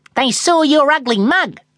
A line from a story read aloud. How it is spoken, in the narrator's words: snapped Foxy